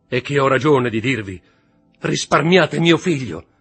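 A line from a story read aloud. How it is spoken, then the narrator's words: Shouted. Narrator (Italian): gridò Mercedes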